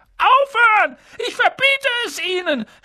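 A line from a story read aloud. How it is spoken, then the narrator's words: Panicked uncle screaming. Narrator (German): schrie Onkel Vernon in Panik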